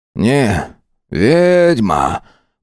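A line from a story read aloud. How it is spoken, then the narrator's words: Drawling. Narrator (Russian): протянул Семен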